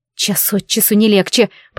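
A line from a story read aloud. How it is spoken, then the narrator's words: Groaning. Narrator (Russian): простонала я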